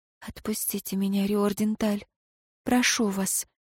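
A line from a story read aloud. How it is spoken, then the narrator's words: Whisper. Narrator (Russian): наконец прошептала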